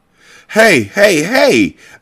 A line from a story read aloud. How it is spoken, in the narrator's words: I cried